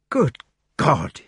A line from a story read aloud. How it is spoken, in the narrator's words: he exclaimed